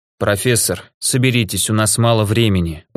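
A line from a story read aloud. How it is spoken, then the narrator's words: Tired. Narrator (Russian): устало сказал ученому граф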